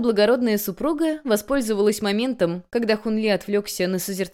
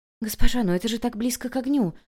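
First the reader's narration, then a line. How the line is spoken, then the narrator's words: Quiet and worried. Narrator (Russian): также тихо выразила опасение Чжилань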